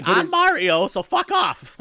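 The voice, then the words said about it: Mario voice impression. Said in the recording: “That's my Charles Martinet impression.”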